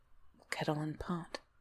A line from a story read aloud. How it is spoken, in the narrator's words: whispered